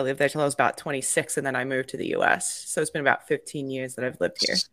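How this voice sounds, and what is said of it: Slight Australian accent. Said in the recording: “I'm originally from Australia, though. You can probably tell about the accent a little bit... It's the O... the no”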